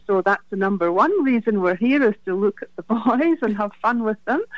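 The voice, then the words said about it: Scottish accent. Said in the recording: “your beautiful accent there ... my accent is from Scotland”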